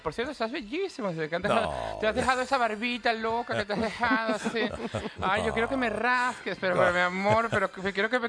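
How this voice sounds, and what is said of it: Imitates another person's voice. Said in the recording (Spanish): “imitar la voz de Boris Rodolfo y Zaguirre Lobo”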